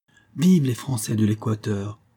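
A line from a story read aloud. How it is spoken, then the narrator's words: Ringing voice. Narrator (French): répondit d'une voix éclatante M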